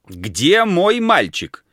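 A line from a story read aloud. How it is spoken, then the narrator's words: Shouting. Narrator (Russian): кричал он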